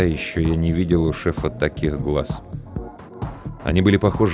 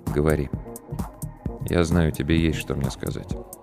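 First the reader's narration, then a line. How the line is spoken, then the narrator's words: Quiet, weighty speech. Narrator (Russian): Игорь Олегович тихо, но очень весомо сказал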